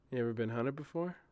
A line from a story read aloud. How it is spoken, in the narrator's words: Julian cleared his throat and spoke under his breath